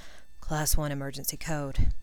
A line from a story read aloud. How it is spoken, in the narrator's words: he muttered